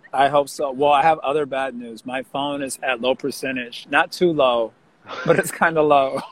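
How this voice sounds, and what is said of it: Losing their voice, strained. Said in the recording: “I'm losing my voice because I went to Harinam, and I might have COVID.”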